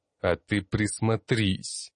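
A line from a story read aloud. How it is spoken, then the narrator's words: Smirking grunt. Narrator (Russian): хмыкнул я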